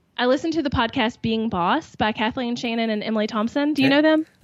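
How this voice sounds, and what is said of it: Southern American accent. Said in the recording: “I love your accent. It's so beautiful ... I can be successful and have a Southern accent”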